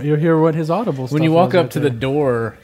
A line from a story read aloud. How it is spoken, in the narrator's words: he yells